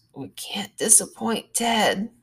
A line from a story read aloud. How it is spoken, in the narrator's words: Stalker C mumbles